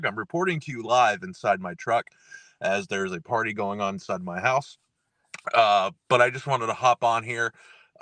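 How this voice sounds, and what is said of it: Hoarse, losing voice, croaky. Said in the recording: “My voice is going out. ... So I've lost it. I sound like I swallowed Kermit the Frog.”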